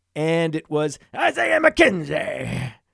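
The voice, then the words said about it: Poor attempted Scottish accent. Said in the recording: “That's a terrible accent... It's not in any way Scottish... my Scottish accent”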